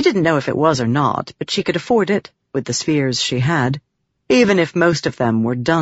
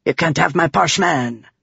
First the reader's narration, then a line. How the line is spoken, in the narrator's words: Tavlakov snapped